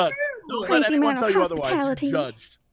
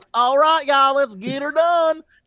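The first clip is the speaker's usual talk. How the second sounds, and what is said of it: Put-on Southern US accent. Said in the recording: “Southern accents”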